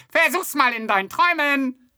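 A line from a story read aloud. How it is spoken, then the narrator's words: Calling out. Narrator (German): rief noch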